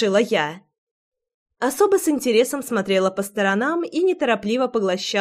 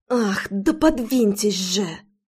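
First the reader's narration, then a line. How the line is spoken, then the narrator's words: Hissed. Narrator (Russian): зашипела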